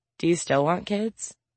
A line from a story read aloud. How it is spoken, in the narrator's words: Anna asks